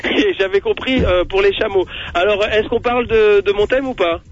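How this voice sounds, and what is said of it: Put-on Bedouin desert accent. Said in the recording (French): “je suis du désert, je suis un bédouin, comme mon accent, vous pouvez l'entendre”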